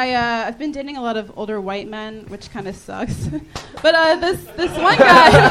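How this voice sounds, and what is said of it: Usual voice. Nothing is said of it.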